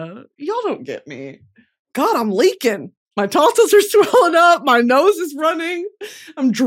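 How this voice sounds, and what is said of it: Usual voice. Nothing is said of it.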